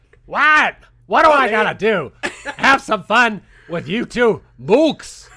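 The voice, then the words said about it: Cartoon character voice impersonation. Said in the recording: “Am I supposed to let you do all the impersonations? ... That was good. That was actually very”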